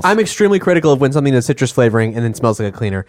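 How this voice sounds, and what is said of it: Speaking faster and faster. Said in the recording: “you can tell that I've been drinking soda caffeine because the speed of my voice is accelerating rapidly”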